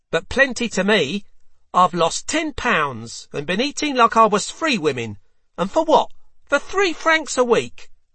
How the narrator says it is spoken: the wet nurse snarled back

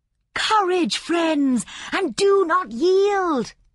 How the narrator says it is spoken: she cried

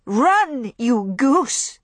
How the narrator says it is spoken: Scarlet cried

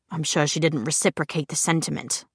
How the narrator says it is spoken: muttered Luke

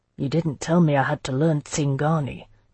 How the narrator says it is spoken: Jocelyn muttered to me

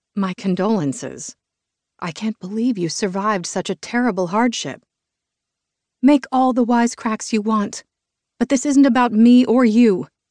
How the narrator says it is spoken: Caroline said through gritted teeth

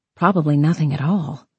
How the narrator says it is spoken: Evelyn murmured

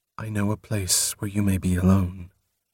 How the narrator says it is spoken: Softly, she said

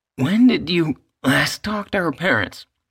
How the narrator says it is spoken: Anna asked hoarsely

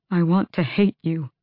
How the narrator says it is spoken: Dorian said, his voice breaking

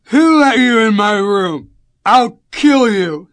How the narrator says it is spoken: he slurred

